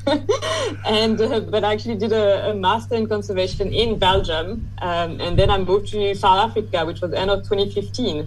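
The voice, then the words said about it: French accent. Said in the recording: “you might hear it from my accent, but I am French originally”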